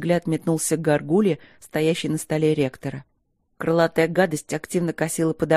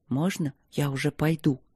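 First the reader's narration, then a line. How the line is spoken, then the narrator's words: Whisper. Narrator (Russian): Почему-то шепотом спросил Роха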